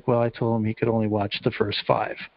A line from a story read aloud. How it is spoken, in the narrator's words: he just mumbles this little throwaway line under his breath